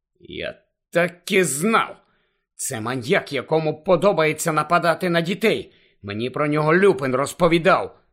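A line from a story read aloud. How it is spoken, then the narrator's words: Angry explanation. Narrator (Ukrainian): сердито пояснив Гаррі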